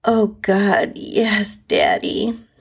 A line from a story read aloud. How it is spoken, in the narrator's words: I moaned into the pillow